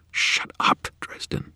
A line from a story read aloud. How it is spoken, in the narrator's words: she hissed